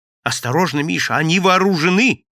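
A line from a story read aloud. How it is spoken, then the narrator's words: Shouted. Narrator (Russian): закричал Валентин Валентинович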